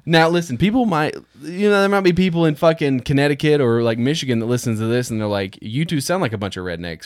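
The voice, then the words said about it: Slight Southern twang. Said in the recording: “yes, I do have a bit of a Southern twang.”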